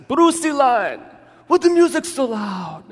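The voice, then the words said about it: Put-on German accent. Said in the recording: “in his German accent”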